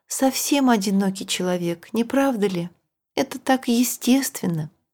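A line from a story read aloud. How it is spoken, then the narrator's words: Ashamed voice. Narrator (Russian): Роза каким-то стыдливым голосом прибавила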